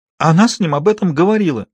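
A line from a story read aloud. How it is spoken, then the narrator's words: Sobbing. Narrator (Russian): Девушка разрыдалась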